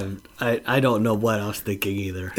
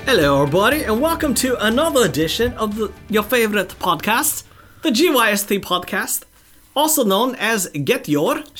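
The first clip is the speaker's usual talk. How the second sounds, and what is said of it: Unclear put-on British-style accent. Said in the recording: “I have no clue what that accent was. At first, I thought you were trying to do like Russell Brand, and then I don't know where you were going after that.”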